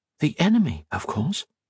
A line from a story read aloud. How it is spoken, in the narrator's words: Octavia answered in a whisper